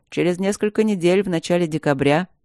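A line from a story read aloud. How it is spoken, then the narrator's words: Dry, sorcerer. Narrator (Russian): сухо начал колдун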